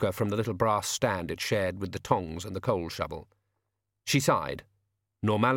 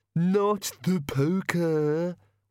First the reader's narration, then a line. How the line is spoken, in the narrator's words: whined the bogeyman